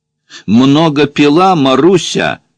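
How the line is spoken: Question in Russian. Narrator (Russian): спросил один по-русски

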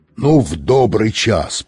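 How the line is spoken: Roaring megaphone. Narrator (Russian): проревел мегафон

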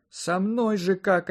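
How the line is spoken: Sobbing. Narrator (Russian): опять всхлипнула рядом Марина Глебовна

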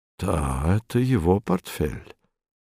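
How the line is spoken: Muttering. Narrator (Russian): пробормотал он

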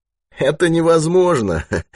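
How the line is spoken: Laughing. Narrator (Russian): засмеялся Спицын

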